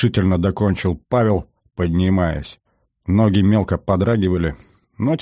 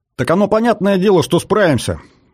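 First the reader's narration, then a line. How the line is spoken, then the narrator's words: Sergeant's wry grunt. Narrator (Russian): хмыкнул старшина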